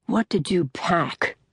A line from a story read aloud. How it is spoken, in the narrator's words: mutters